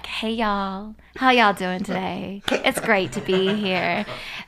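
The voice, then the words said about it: Convincing put-on American accent. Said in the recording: “I just started saying this American accent. I got so good at it, I could convince an entire cruise ship that I was an American”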